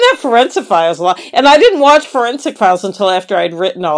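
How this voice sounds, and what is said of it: Usual voice. Nothing is said of it.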